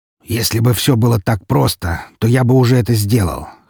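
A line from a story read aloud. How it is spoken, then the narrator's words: Wry snort. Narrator (Russian): хмыкнул он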